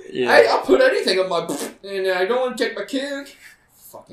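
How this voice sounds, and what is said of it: Cartoon character voice. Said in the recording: “Are you doing a South Park voice?... All of them? every single character.”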